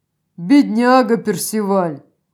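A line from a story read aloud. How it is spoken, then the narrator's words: Laughing. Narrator (Russian): Рассмеялся император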